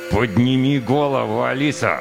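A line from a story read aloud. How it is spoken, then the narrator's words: Demanding through gritted teeth. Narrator (Russian): Сквозь зубы потребовал сержант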